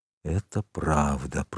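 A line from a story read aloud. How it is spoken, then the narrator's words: Whisper. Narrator (Russian): прошептал англичанин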